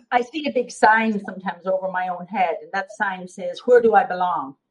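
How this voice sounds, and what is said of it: Strong Irish accent. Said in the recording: “your accents get stronger. Your accent is definitely more prominent ... your accent is definitely stronger ... you're so Irish”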